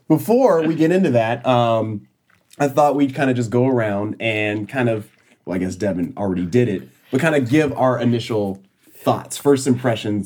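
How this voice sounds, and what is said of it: Sick, under-the-weather voice. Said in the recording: “I am feeling a little under the weather. So if my voice is kind of bleh, that is why”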